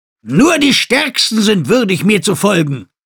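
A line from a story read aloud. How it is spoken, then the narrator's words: Former governor calling out. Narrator (German): rief der ehemalige Gouverneur von Naht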